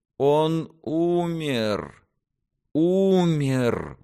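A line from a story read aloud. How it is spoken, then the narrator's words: Anguished moan, father. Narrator (Russian): в муке простонал отец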